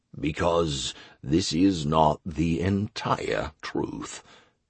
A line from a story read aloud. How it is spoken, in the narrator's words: the Emperor said grimly